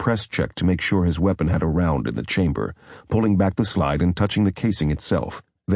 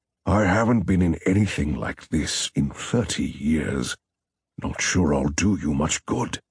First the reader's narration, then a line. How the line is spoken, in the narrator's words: Fitzroy spoke slowly and softly from the back